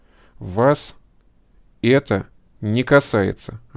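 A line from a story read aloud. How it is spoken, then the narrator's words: Clipped, measured. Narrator (Russian): отчеканил первый адвокат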